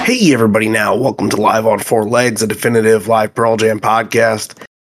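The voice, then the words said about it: Hoarse voice. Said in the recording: “my voice is a little hoarse. ... it's also due to testing positive for COVID”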